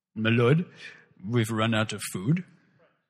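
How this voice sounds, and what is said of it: Butler voice with strange accent. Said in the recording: “that's my butler voice ... He's got a strange accent, I'll admit.”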